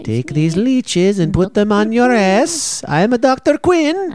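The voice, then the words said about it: Put-on unidentified accent, TV character. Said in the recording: “That's what she sounded like in the show... Are we doing a real accent? ... I don't know what that accent is.”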